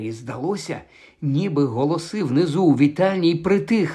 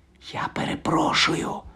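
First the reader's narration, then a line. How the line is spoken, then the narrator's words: Whisper. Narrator (Ukrainian): прошепотів він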